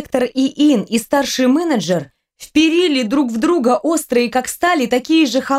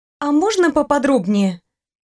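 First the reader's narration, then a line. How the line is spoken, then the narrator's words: Feigned timid request. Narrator (Russian): Притворно робко попросила Саша, как будто боялась навлечь на себя начальственный гнев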